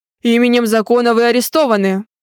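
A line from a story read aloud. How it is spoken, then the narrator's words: Barked command, colonel-like. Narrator (Russian): Гаркнул он командным голосом, действительно достойным гвардейского полковника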